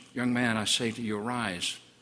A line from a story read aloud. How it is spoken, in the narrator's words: no stranger murmurs